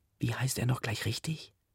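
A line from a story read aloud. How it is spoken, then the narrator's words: Whispering. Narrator (German): sie flüstert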